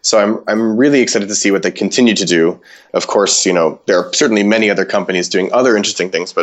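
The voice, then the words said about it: American accent. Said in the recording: “Sorry for my American accent.”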